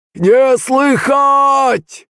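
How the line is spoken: Loud sing-song. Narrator (Russian): ответил громко и нараспев Пантелей

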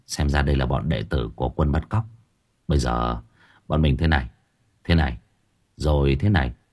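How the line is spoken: Whisper. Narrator (Vietnamese): Tôi thì thầm nói với nam chó

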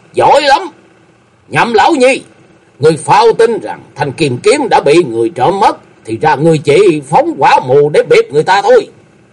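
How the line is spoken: Angry shout. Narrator (Vietnamese): Chu Nhất Cuồng quát lên

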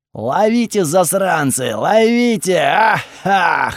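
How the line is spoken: Guffawing. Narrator (Russian): хохотал Готфрид

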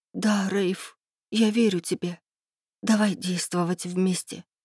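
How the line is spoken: Whispered. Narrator (Russian): прошептала я

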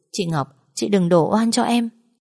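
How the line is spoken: Fake wailing. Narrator (Vietnamese): Cô ta giả vờ khóc lóc quỷ sụp

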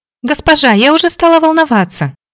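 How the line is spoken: Joyful exclamation. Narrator (Russian): воскликнула Молли, обрадованно

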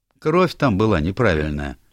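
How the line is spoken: Businesslike. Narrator (Russian): деловым тоном сказал доктор Стиллингфлит

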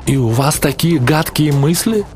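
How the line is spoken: Bewildered, woman. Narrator (Russian): растерянно сказала Сюзанна

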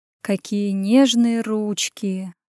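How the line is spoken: Brazen cooing. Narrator (Russian): проворковал наглый хищник

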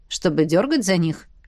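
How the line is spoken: Snorting scoff. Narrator (Russian): хмыкнул Роннелл

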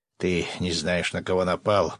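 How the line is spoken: Growling prisoner. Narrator (Russian): прорычал один из пленных

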